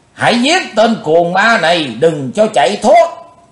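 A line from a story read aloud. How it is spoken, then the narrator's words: Shouting. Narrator (Vietnamese): Liền trong tiếng hét, đào phu nhân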